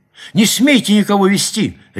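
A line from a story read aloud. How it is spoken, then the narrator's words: Sharp cry. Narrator (Russian): резко вскрикнула она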